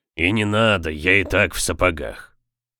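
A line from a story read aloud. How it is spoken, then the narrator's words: Gruff mutter. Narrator (Russian): буркнул Хэнк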